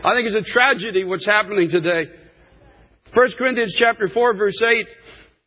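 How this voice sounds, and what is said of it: Raised, impassioned preaching voice. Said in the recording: “raising my voice ... I am impassioned”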